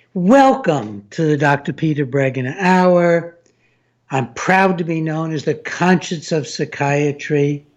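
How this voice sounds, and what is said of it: Slightly hoarse male voice. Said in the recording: “I'm a little hoarse today, nothing serious at all, probably a little allergy.”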